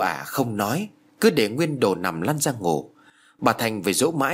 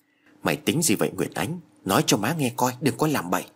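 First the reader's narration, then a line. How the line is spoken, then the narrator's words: Soft question. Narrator (Vietnamese): hỏi khẽ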